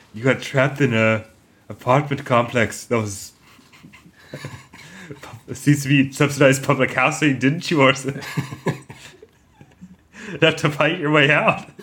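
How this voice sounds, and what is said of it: Imitates another person's voice. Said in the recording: “Are you doing Mark Cousins about The Raid?”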